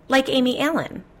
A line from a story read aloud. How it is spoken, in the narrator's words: I blurted out to her on the phone